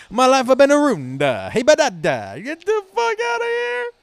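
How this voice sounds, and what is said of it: Yelling, exaggerated Italian accent. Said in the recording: “yelling in an excessively Italian accent ... He doubled down on Italian”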